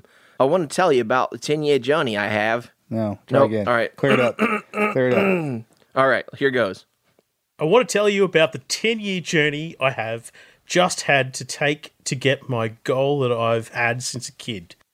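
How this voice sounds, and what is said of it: Put-on Australian accent. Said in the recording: “I'm going to try to do it in my Australian accent ... That sounds pretty good.”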